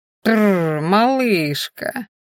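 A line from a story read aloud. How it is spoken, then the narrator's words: Drunken drawl. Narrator (Russian): пьяно протянул мужчина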